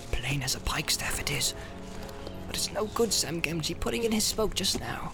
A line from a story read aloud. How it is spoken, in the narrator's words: Sam, who had been watching his master with great concern, shook his head and muttered